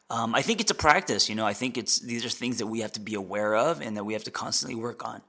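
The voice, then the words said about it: Voice going hoarse. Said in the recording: “I'm losing my voice.”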